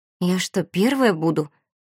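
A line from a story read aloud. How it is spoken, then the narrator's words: Confused mutter. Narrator (Russian): растерянно пробормотала Валерий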